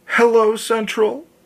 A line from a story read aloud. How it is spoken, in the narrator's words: she gasped almost inaudibly